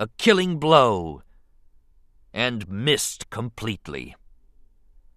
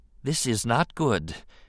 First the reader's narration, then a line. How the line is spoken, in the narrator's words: he told himself softly